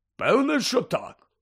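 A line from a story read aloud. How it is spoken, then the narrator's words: Grumbled. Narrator (Ukrainian): буркнув Гегрід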